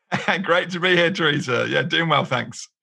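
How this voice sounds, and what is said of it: British English accent. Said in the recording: “you don't have an American accent... there's not many of us in the UK”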